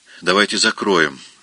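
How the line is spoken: Calm. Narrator (Russian): спокойно сказала

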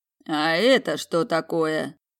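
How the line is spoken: Sudden hoarse question. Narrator (Russian): Неожиданно хрипло спросил наемник

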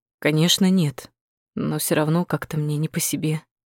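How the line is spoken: Glum. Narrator (Russian): уныло произнес Бакаев

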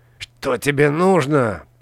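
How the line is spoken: Hissing. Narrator (Russian): прошипел он

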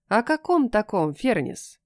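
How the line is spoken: Plain. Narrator (Russian): спросила я

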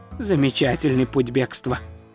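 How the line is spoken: Muttered. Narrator (Russian): пробормотал Ринсвинд

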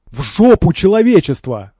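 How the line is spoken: Yell. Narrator (Russian): завопил пригоршня

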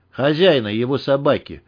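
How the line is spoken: Grim joke. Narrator (Russian): мрачно пошутил Вадим

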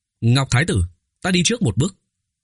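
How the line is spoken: Loud raised voice. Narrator (Vietnamese): Tô Vân cao giọng nói

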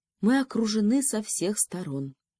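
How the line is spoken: Sad sigh. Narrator (Russian): печально вздохнул министр

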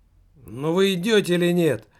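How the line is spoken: Shout. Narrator (Russian): прокричал

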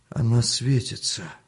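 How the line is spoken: Weak voice. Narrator (Russian): слабым голосом сказал Артем Мельнику

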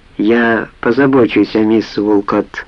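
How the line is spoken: Calm. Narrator (Russian): проговорил Халид спокойно

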